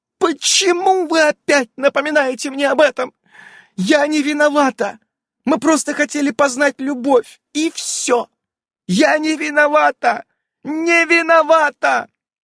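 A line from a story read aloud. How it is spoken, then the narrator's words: Sobbing. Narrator (Russian): М продолжала рыдать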